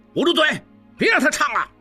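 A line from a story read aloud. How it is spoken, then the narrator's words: Exasperated shout. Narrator (Chinese): 官兵听不下去，喊道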